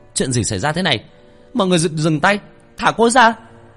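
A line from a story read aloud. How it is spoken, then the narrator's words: Boy's shout. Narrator (Vietnamese): tiếng hét của thằng Nguyên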